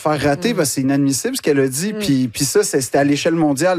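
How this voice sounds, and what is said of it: Québécois French accent. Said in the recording (French): “l'accent québécois ... le fait que tu le dis avec cet accent”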